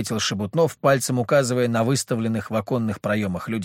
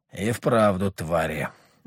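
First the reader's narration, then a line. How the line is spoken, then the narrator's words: Gloomy. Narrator (Russian): мрачно проговорил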